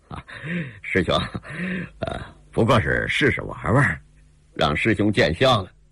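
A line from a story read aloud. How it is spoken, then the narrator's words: With a smile. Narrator (Chinese): 司空远也一笑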